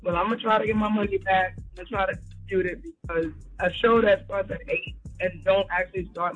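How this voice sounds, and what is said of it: Tired-sounding voice. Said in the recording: “That's why I sound tired.”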